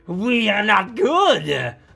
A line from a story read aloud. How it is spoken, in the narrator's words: The crowd jeered